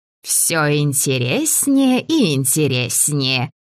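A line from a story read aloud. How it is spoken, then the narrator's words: Laughing old woman. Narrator (Russian): рассмеялась старушка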